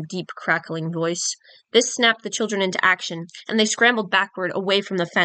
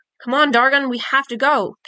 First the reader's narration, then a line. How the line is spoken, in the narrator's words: Pip shouted